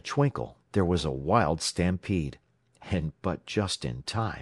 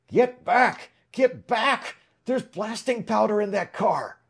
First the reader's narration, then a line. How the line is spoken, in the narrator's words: Suddenly, a wildly excited figure shouted at the top of his voice